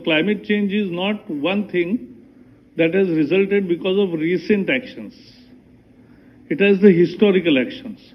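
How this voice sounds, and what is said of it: Somewhat thick foreign accent. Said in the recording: “His accent is a little thick”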